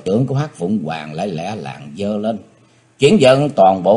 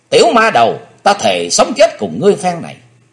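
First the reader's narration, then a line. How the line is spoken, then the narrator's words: Chilling hateful scream. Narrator (Vietnamese): Máu hận thù trong quyết quản của thiếu nữ sôi lên cùng độ, nàng hét nghe rợn cả người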